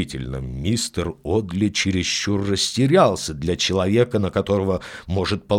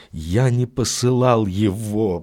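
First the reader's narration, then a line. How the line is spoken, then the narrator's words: Groaning. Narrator (Russian): простонал он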